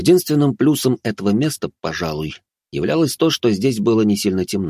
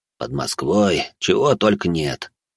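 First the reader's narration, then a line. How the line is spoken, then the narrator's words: Quiet remark. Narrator (Russian): негромко произнес Францев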